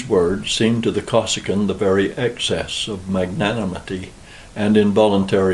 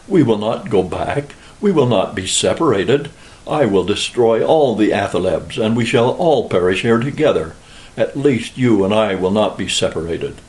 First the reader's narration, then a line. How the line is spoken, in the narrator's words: cried in a fury